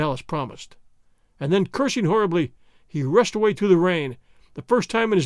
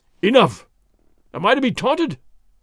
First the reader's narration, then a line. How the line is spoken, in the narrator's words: the big sergeant cried